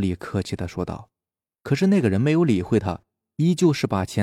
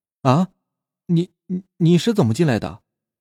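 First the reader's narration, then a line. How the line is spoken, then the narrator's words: Terrified shout. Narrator (Chinese): 小李惊恐的大叫着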